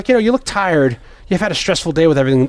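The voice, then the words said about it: Put-on Irish accent. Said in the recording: “if that's even an Irish accent.”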